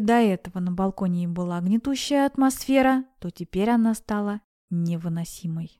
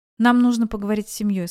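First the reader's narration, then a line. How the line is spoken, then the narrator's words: Cold tone. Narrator (Russian): сказал Келлан холодным тоном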